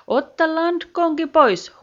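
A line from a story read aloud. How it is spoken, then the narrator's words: Captain shouting. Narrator (Finnish): huusi kapteeni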